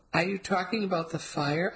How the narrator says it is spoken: I asked dreamily

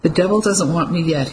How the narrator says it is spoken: he said, giving a nervous chuckle

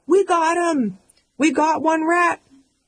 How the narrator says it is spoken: We're hyperventilating, our hands are shaking, we yell

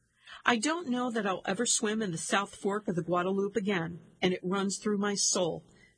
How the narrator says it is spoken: says Chenoweth

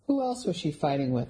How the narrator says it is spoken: I asked in a friendly tone

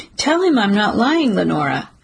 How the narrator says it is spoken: I say, my voice sliding perilously close to outright begging

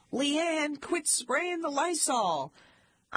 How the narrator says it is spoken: My parents would yell

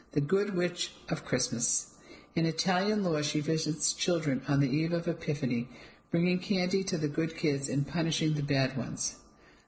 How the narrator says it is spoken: I told her between giggles

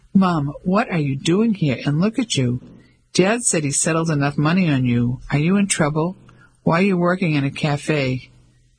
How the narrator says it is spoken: Ellie laughed

